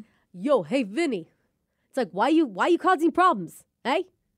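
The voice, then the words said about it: Attempted New York accent. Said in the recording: “could you do a New York accent? ... I'm worried that it's going to sound Mexican mixed with Italian, mixed with Bostonian.”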